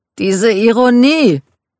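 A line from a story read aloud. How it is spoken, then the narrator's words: Exclaiming. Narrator (German): rief Michael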